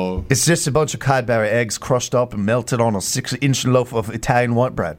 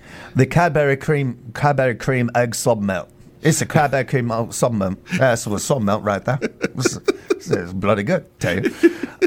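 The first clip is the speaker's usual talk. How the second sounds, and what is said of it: Attempted English accent. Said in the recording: “Let's say this with an English accent. I want to hear this in an English accent. ... I can't get my voice ... there.”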